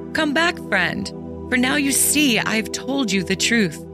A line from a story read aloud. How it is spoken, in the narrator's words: she thought at first that he was still in play and cried